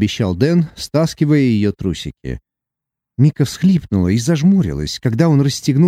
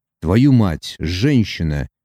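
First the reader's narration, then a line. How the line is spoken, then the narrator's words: Hoarse rasp. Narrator (Russian): прохрипел Дэн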